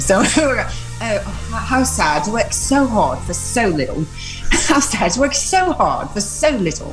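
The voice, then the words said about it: American attempting an English accent. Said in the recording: “put on an English accent ... what would your Android 18 sound like with an English accent? ... All kind of English accents from American sound a little bit like a cross between Mary Poppins and My Fair Lady”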